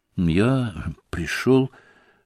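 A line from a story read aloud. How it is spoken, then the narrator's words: Confused mumble. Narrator (Russian): пробормотал Алеша, путаясь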